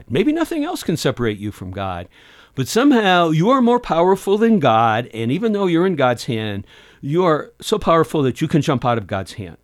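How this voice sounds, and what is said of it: Sarcastic delivery. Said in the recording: “Being sarcastic now.”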